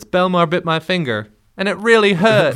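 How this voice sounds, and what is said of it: Imitated voice with slight accent. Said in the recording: “good impression right there ... I had to add a little bit of an accent.”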